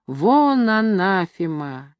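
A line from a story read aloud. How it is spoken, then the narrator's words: Wheezing, hoarse. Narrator (Russian): хрипит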